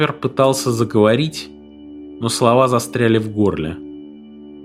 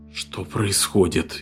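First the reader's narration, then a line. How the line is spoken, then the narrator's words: Frightened whisper. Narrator (Russian): испуганно прошептал Фред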